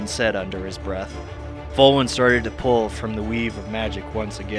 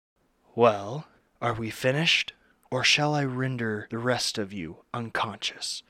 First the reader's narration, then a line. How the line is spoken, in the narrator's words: Volwyn spoke softly